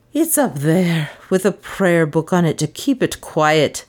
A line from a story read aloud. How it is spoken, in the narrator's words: groaned